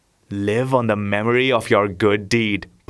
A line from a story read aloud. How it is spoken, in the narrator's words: purred the cat